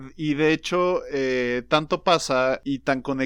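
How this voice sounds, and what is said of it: Usual voice. Nothing is said of it.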